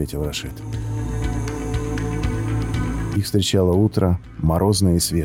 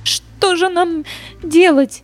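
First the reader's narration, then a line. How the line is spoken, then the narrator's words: Sobbing. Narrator (Russian): всхлипнула Глория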